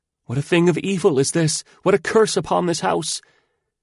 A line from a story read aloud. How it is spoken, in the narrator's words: a manservant came running out of the gate, and he cried as he ran